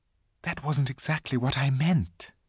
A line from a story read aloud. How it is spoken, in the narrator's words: whispered Susan to Lucy